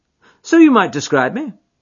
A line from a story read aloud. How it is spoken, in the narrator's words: said Holmes cheerfully